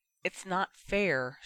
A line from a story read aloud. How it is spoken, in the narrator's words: she added quietly